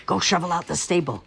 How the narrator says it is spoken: hissed the stepmother, and Cindy reluctantly obeyed

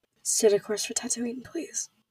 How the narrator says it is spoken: she murmured, her voice muffled

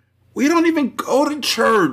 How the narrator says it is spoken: she moaned

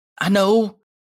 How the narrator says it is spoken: Toshinori blurts out

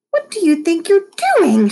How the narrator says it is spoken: screeched

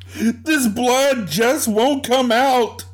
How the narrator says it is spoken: she shouted

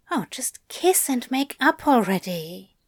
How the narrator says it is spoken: Madame Tracy muttered

